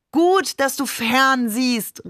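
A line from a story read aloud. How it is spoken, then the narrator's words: Called out. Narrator (German): rief Barbe dann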